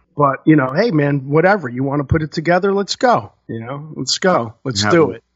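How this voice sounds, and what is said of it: Usual voice. Nothing is said of it.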